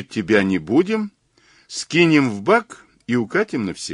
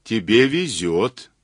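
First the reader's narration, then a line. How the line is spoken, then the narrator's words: Plain. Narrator (Russian): сказал Мазур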